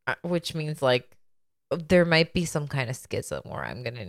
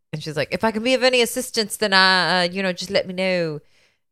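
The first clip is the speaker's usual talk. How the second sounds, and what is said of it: Put-on accent quoting a character. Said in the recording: “I'm sorry for everyone hearing my accent. I apologize.”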